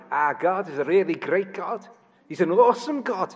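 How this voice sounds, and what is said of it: Put-on Liverpool accent. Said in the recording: “Liverpool has a very distinctive accent. ... in Liverpool, it's a very distinctive accent.”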